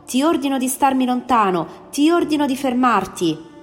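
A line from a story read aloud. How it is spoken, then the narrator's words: Frantic shout. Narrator (Italian): gesticolando come un matto, gridò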